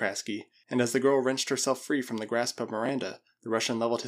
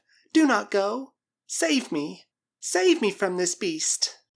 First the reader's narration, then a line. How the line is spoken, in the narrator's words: she cried